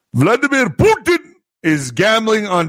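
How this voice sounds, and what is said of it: Brief Indian-sounding accent. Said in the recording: “I sounded like a Hindu right there.”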